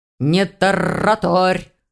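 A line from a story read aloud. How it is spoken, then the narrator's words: Growled. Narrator (Russian): рыкнул черныш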